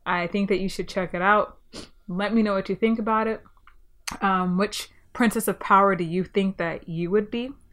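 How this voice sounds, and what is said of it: Stuffy, congested voice. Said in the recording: “I'm sorry I sound a bit stuffy. I am getting a little bit sick”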